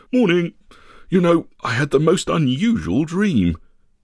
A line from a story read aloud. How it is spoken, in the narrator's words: Turning to the now dozing Scrag, he appeared to yawn before saying